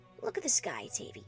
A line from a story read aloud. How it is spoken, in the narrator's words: Vinyl whispered